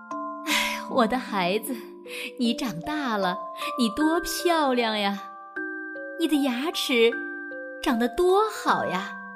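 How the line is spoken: Admiring sigh, mother. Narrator (Chinese): 鳄鱼妈妈都会感叹地说

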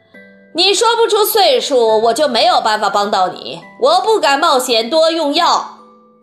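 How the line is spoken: Exclaiming. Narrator (Chinese): 温克先生叫道

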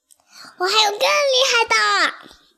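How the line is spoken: Happy shout. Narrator (Chinese): 章鱼又高兴地喊道

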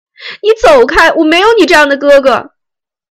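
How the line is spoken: Wailing, sobbing. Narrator (Chinese): 大妹嚎啕大哭起来

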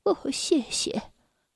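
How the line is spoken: Quiet, low voice. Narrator (Chinese): 维达勒夫人低声地说了句

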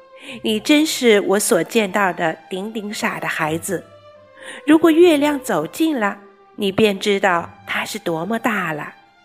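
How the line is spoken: Laughing. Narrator (Chinese): 但是哥哥还是笑着说

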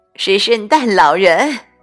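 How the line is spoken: Woman crying out. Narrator (Chinese): 一位婶婶叫了起来

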